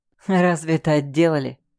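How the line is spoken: Scoffing grunt. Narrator (Russian): хмыкнул

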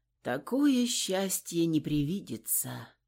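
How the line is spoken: Tired smiling tone. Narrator (Russian): устало улыбнулась Анна

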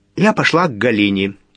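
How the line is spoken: Shouting into covered ear. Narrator (Russian): прямо в ее ладонь, прижатую к уху, прокричала Нина

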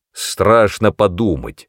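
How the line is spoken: Gloomy snap. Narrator (Russian): мрачно огрызнулся он

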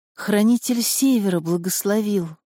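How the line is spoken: Whispered. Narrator (Russian): прошептала

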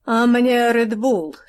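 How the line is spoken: Plain. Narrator (Russian): сказала Лиза

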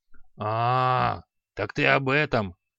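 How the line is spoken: Grumbling. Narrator (Russian): пробурчал Халай

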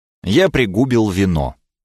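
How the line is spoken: Calm. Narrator (Russian): ответил спокойно

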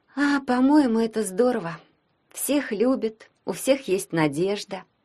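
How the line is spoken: Dreamy sigh. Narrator (Russian): мечтательно вздохнула Вика

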